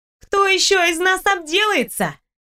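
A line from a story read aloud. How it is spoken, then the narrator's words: Shouted back, smiling. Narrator (Russian): прокричала в ответ, улыбаясь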